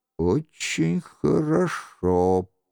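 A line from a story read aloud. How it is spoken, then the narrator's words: Quiet voice. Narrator (Russian): произнес Шико тихим голосом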